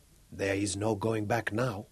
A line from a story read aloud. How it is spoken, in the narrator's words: said softly